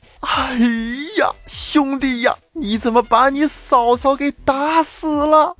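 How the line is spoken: Shouting loudly. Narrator (Chinese): 杨万蛋在旁边大声喊道

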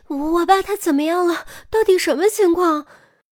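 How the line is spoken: Breathless, angry, rapid-fire. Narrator (Chinese): 江华气得顾不上喘，连珠炮似的急声问

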